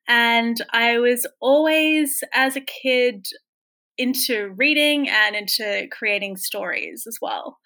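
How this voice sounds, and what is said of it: Australian accent. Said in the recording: “I grew up in Sydney, Australia, which is where my accent is from.”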